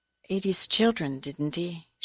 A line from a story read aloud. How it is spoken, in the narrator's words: She murmured